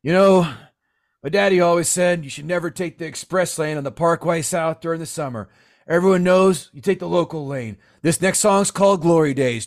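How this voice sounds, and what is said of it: Imitates another person's voice. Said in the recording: “my Bruce Springsteen impression at a concert”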